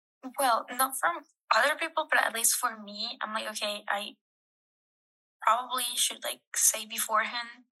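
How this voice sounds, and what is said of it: Non-native English accent. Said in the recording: “separated from you as an American and me as an immigrant because of my accent ... English is your second language”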